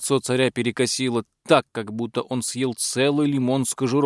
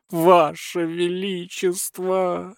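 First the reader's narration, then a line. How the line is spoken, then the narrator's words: Pleading. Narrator (Russian): взмолился Прохиндей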